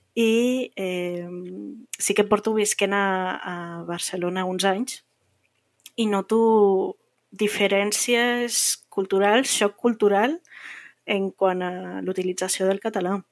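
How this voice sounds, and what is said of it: Slightly different Andorran Catalan accent. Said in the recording (Catalan): “tinc un accent una miqueta diferent. Eh, soc andorrana”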